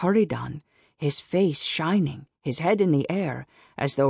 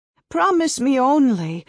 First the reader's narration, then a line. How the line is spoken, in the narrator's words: wailed mother